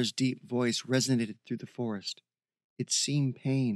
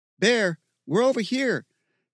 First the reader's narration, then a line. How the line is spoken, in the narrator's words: Steve shouted